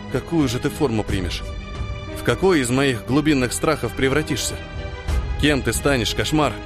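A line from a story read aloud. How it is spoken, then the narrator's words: Quiet fearful muttering. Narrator (Russian): Ниэль бормотал тихо-тихо, содрогаясь от страха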